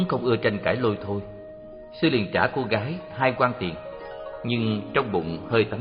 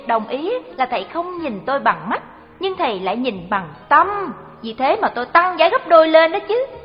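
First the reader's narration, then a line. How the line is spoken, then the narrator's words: Smiling. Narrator (Vietnamese): Cô gái mỉm cười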